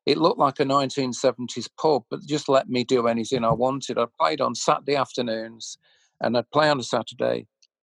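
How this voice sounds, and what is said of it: Leicester accent. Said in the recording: “You can hear the Leicester accent there. Saturday afternoons, very Leicester accent.”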